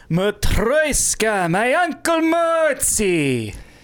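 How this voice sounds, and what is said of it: Put-on vaguely Russian-Austrian accent. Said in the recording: “A Russian accent? ... That actually didn't sound Russian. He sounded a little bit more ... Jewish ... A little Austrian.”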